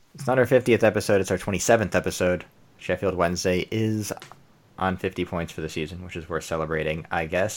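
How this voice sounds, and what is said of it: American accent. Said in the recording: “with an American accent”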